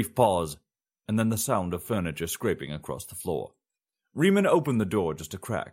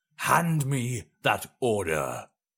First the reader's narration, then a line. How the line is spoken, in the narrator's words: the Emperor snarled